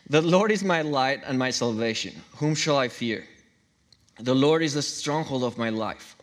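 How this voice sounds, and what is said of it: Speaks with a noticeable accent. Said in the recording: “sorry about the accent.”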